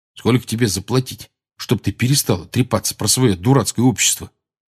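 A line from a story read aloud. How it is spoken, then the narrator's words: Irritated quiet mutter. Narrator (Russian): раздраженно пробормотал Рон, но так, что слышал его только Гарри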